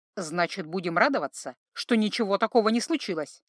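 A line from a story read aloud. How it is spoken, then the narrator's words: Slightly irritated retort. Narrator (Russian): чуточку раздраженно парировал Златка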